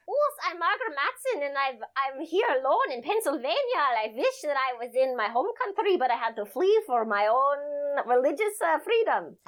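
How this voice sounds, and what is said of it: Put-on Swedish accent. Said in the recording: “she has a Swedish accent ... replicate a Swedish accent ... No, that was so good”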